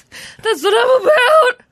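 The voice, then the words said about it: Voice cracks mid-phrase. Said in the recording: “your voice cracked.”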